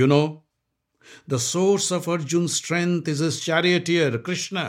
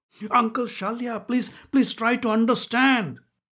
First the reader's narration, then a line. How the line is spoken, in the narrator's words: pleaded Duryodhan